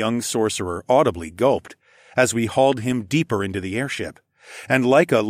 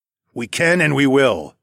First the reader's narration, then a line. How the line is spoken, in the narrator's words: growled